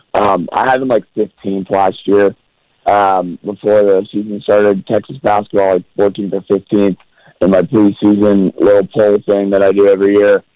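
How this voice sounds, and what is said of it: Hoarse, failing sick voice. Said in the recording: “my voice is giving out... I'm sick... we could hear it”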